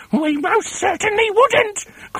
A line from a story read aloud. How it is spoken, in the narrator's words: cried Mrs